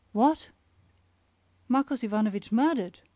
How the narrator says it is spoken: stammered Olga Petrovna

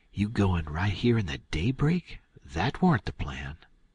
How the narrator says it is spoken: I hunched Tom and whispers

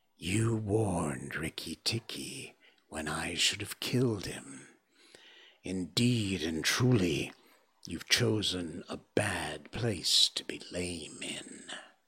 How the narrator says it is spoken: Nagaina hissed

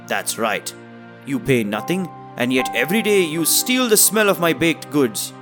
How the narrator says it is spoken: The baker yelled

